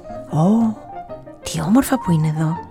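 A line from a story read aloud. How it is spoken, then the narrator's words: Enchanted murmur. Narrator (Greek): μουρμουρίζει μαγεμένη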